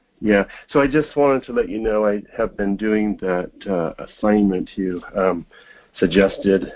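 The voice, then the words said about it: Unwell-sounding voice. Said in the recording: “pardon my voice. I've been chasing away a cold”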